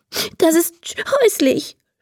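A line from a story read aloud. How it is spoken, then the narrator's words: Sobbing. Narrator (German): schluchzt Emma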